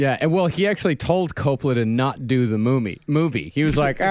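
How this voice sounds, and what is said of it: Usual voice. Nothing is said of it.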